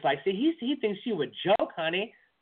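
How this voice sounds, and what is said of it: Impression of a woman, Ebonics dialect. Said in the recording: “my black woman impression ... that's a pretty good Ebonic impression”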